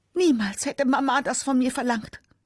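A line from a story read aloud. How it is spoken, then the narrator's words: Scream. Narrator (German): schreit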